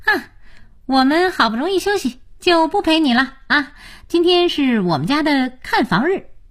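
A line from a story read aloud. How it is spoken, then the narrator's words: Beaming, cheerful. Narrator (Chinese): 才智笑眯眯地说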